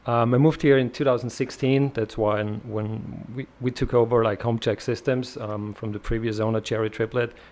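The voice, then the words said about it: Austrian-accented English. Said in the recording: “originally, I'm from Europe, Austria. I would say like the Arnold Land, kind of that's where the accent comes from.”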